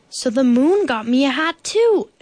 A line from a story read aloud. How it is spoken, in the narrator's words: exclaimed Bear